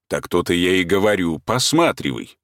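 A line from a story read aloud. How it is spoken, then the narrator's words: Calm but very loud interruption. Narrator (Russian): перебил барин уже спокойно, но очень громко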